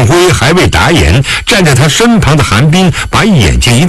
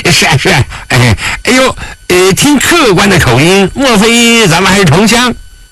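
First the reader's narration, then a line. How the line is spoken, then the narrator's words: Fawning laugh. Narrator (Chinese): 张成谄媚地笑了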